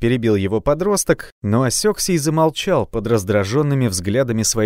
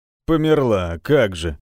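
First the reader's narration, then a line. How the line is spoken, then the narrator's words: Deep bass voice. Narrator (Russian): пробасил здоровяк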